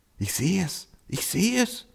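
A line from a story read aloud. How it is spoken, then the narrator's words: Donkey murmuring. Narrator (German): raunte der Esel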